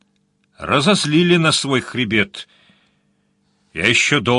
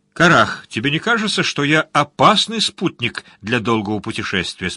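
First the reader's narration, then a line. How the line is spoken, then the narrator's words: Plain. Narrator (Russian): спросил он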